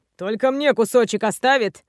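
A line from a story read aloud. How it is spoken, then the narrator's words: Short growl. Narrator (Russian): коротко рыкнул Рельгор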